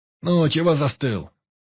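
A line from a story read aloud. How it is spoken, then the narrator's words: Barked snap. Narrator (Russian): рявкнул на Рыбкина комар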